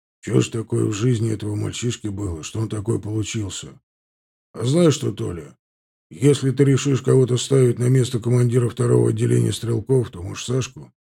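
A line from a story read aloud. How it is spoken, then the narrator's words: Gloomy sigh. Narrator (Russian): Черепанов помрачнел, вздохнул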